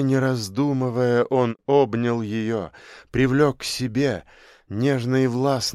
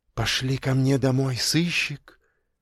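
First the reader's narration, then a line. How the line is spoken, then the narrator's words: Whisper in ear. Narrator (Russian): шепнула ему на ухо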